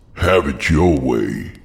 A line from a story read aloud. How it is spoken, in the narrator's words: Malcolm growled